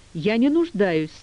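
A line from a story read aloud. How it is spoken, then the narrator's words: Loud but unsure. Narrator (Russian): сказала она громко, но не уверенно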